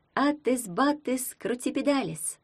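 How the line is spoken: Cooed. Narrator (Russian): проворковала Таня

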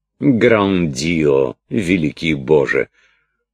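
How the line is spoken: Exclaiming, coughing laugh. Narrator (Russian): вскричала и с новым кашлем рассмеялась принцесса

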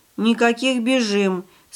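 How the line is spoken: Calm reply, girl. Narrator (Russian): спокойно отозвалась девочка

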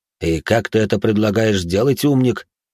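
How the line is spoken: Snort. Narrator (Russian): хмыкнул Бэй

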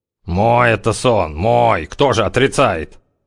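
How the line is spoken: Grumbling. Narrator (Russian): заворчался зяблик

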